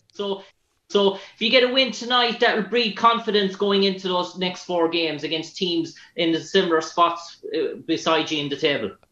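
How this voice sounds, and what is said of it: Irish accent. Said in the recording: “his reaction to hearing an Irish accent ... I like your accent. It's tough.”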